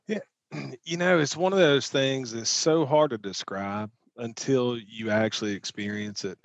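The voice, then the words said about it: Southern US Mississippi accent. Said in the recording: “I'm just a burly Mississippi construction worker with a, you know, Southern accent.”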